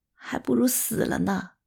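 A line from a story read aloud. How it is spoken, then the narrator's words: Sobbing mutter. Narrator (Chinese): 吴姐哭得更伤心了，她喃喃自语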